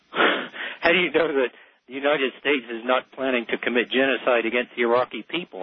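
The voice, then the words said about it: Slight accent, sounds Canadian. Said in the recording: “you're either in New England or in Canada. More likely in Canada ... I do have a slight accent ... you must be from Canada ... you said a boot”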